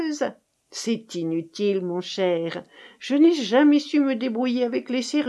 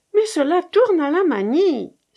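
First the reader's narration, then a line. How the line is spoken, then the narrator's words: Exclaimed. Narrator (French): s'écria-t-elle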